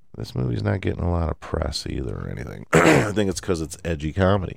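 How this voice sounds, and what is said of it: Scratchy, hoarse voice. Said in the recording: “I'm losing my voice here or something. A little scratchy.”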